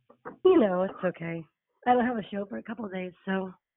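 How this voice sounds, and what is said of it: Hoarse voice. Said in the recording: “My voice is a little hoarse. ... I had some allergies and it just I sang through it and my voice got lost last night.”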